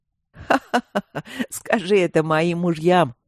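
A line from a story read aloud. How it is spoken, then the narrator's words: Laughing queen. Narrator (Russian): снова рассмеялась царица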